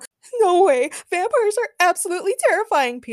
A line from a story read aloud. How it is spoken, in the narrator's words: Peter screamed as he hid under a break room table